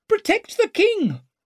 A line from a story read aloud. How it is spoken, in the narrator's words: squealed Gorst